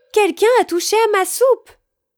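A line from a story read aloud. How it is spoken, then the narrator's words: Mother bear exclaiming. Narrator (French): s'exclama maman ours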